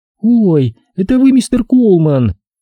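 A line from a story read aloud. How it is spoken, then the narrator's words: Joyful shriek, young woman. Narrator (Russian): радостно завопила девушка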